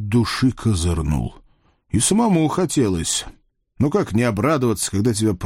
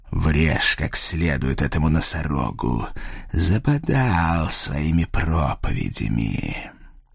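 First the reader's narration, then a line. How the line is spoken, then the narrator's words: Announcement. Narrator (Russian): оповестил владелец питейного заведения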